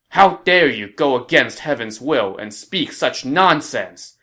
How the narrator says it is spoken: he chided Wang Wei angrily

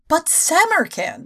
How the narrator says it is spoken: exclaimed Miss King, trying to keep the sound of tears out of her voice

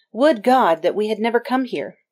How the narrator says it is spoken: Alessandro, in a panic, cried

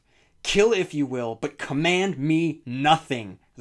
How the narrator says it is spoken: the gunslinger roared

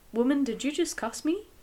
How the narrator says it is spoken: he asked

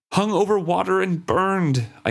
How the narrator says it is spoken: I cried out in despair

